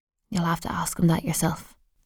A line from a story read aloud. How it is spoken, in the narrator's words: she whispers